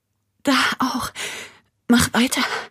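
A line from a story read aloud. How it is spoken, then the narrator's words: Panting. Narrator (German): keuche ich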